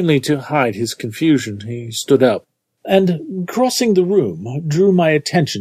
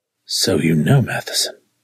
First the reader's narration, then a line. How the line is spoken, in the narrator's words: he murmured